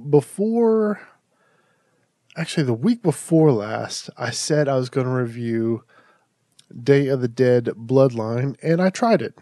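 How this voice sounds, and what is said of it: Stuffed-up, slightly nasal voice. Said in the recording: “I'm kind of stuffed up... I sound a little nasally”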